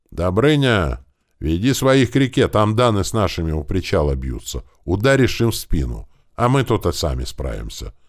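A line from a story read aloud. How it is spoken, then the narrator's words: Shouted. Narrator (Russian): крикнул сотник старшему Гриде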